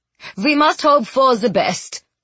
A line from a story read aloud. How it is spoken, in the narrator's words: Peter Lumley said firmly